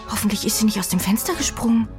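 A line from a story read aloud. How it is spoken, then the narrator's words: Anxious. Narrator (German): sagt Jenny ängstlich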